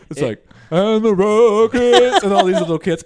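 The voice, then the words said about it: Deliberately deep low voice. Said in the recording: “with a deep voice”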